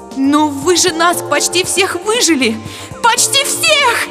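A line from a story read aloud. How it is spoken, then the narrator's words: Shrieking aloud. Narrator (Russian): Завизжала вслух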